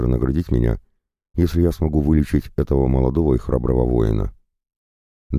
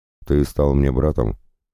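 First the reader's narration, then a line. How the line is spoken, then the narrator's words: Solemn. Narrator (Russian): торжественно произнес Дарсон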